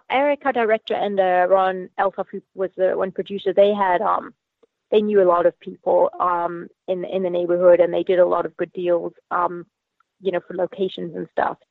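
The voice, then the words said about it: Zimbabwean accent with Australian influence. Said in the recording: “you have an interesting accent... Initially from Zimbabwe in Africa via Australia... I don't think I've ever heard anyone with quite the same accent.”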